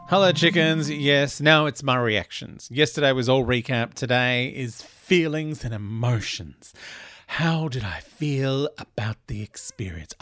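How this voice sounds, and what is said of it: Weird radio-announcer style voice. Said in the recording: “I don't know what this weird radio voice I'm doing now is.”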